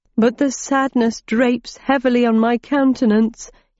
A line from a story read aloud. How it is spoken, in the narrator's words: whimpered